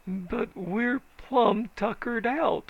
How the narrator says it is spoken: wailed old man Richardson

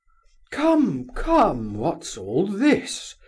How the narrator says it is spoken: cried General Ivolgin, suddenly and angrily

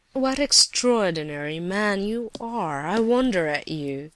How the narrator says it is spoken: Rogojin laughed sarcastically

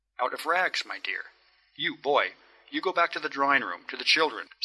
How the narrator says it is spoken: said Julian Mastakovich, looking at the boy sternly

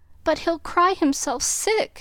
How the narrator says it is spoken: pleaded Meg, reproaching herself for deserting her boy

